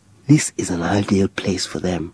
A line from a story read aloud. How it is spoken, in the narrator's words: John whispered